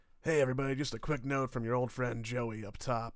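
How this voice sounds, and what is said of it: Sick-sounding voice. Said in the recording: “This is what my voice sounds like ... who says he's sick”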